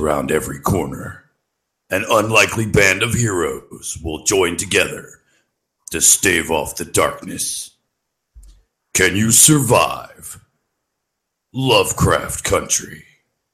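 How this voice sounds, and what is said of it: Dramatic movie trailer voice. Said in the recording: “Somebody requested movie trailer voice, so I had to do movie trailer voice.”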